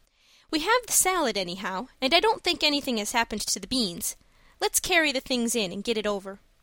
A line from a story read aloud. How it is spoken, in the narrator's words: said Anne, sobering down again with a sigh of recollection